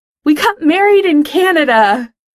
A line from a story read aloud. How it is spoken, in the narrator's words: Over all the teenies screaming, Pete yells into the mic